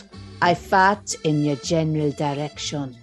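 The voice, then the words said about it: Put-on French accent. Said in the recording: “I'm going to do it in a French accent”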